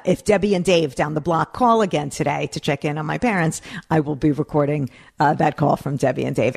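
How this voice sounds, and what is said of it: Northeast Jewish American accent. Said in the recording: “the accent is getting worse ... I am around a bunch of Northeast Jews all the time ... I cannot control my accent”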